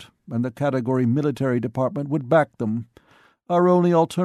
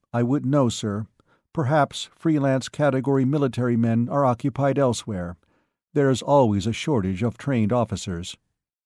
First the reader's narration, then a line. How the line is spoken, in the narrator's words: said evenly